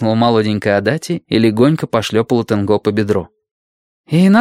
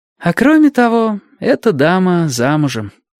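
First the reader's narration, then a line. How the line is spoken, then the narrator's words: Slightly weary. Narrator (Russian): немного устало добавила сестра Тамура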